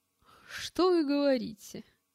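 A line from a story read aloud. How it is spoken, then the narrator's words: Forced laugh. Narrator (Russian): Неестественно рассмеялся он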